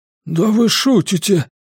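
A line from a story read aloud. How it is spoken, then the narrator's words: Hoarse. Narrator (Russian): прохрипел Гарпагу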